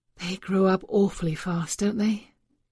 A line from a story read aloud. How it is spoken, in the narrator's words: sighed and said indulgently